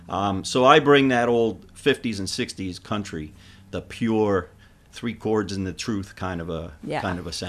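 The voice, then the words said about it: Deep smooth radio-style voice. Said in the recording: “radio voice”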